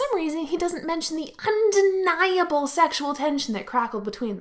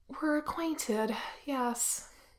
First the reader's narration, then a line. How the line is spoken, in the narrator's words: Wen Qing sighs, says